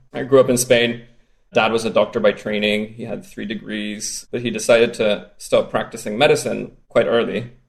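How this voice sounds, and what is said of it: Strange Spanish-Norwegian accent. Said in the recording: “half Spanish, half Norwegian, which explains the strange accent”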